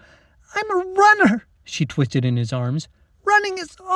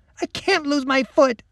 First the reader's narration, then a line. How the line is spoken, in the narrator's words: Lacey sobbed